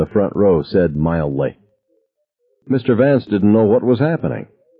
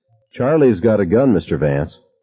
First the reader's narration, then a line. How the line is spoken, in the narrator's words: Mike Gavin said in a discussing the weather tone